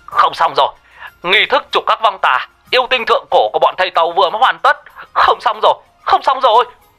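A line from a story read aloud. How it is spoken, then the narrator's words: Panicked shout. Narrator (Vietnamese): cô An hốt hoảng gào lên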